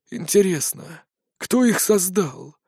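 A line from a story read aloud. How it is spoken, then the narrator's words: Thoughtful ghost. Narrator (Russian): задумчиво проговорил призрак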